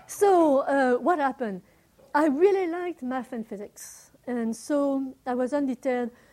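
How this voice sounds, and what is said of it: German accent. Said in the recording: “my accent ... you have a strange accent. I would say a German accent”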